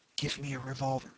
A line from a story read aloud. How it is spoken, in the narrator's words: whispered